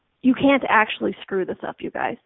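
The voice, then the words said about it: Mock-serious emphatic voice. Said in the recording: “Let me stress this with the serious voice.”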